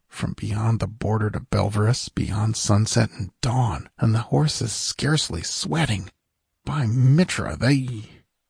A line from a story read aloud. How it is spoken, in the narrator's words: one of the guardsmen mutter